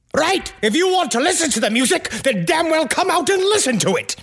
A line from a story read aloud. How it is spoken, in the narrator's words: So finally, he yelled